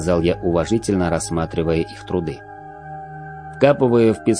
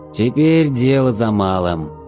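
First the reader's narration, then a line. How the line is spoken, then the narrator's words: Sigh. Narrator (Russian): вздохнул Салан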